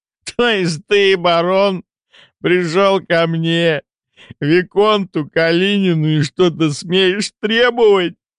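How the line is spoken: Catching breath after laughing. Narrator (Russian): уточнил парень, наконец отсмеявшись и переведя дух

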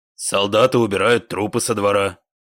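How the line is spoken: Flat mechanical voice. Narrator (Russian): механическим голосом ответил особист

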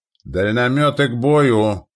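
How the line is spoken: Shouted command. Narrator (Russian): крикнул комендант

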